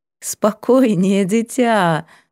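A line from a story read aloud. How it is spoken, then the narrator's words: Laughing. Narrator (Russian): рассмеялась Сва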